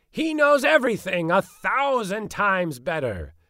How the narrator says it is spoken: he cried

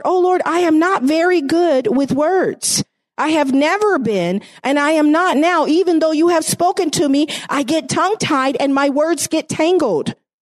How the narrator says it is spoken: Moses pleaded with the Lord

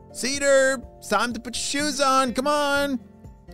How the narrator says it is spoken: shouted his mom

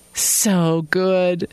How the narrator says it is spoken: purred

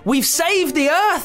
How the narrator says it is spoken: screamed

